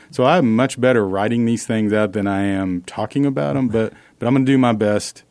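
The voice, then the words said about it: Oklahoma accent. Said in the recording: “I'm trying to tone my Oklahoma accent down a little bit... you got to lose that accent”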